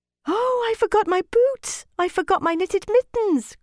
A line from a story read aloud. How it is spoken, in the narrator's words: cried little Gerda